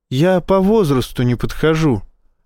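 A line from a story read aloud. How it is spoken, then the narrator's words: Timid remark. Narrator (Russian): робко заметил Энди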